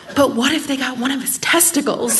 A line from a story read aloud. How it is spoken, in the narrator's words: she leans in and whispers